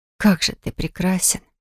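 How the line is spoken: Admiring whisper. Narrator (Russian): прошептала

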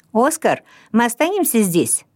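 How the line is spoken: Shouting. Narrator (Russian): закричал он

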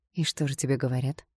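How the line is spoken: Calm question. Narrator (Russian): спокойно спросила я

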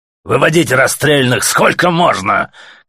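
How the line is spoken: Faint shout through ringing. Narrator (Russian): крикнул еле-еле сквозь звон майор тюремщикам

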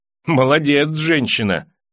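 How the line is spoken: Laughing. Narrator (Russian): засмеялся Джейми

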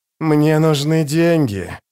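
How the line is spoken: Hissing cat. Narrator (Russian): прошипел кот из Йеллу

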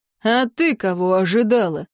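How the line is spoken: Curt grumble, zombie. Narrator (Russian): не слишком любезно буркнул зомби

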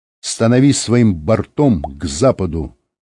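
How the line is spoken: Plain. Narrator (Russian): сказал Рыбкин водителю

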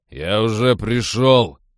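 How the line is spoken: Barking. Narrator (Russian): рявкнул он

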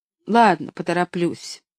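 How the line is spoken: Gloomy, then sudden laugh. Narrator (Russian): мрачно ответила она и вдруг засмеялась

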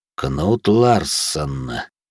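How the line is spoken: Thoughtful windy voice. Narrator (Russian): задумчиво произнес ветер равнин

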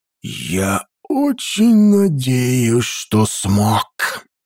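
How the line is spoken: Ominous whisper. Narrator (Russian): Зловещим шепотом выразил свое отношение к происходящему король

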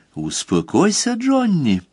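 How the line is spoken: Cooing in ear. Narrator (Russian): проворковала ему на ухо новоявленная невеста

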